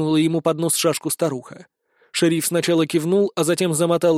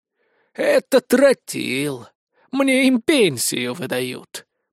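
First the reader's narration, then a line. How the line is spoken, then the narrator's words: Sinister hoarse rasp. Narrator (Russian): прохрипела она со зловещей гримасой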